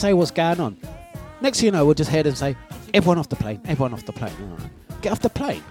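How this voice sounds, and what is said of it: Usual voice. Nothing is said of it.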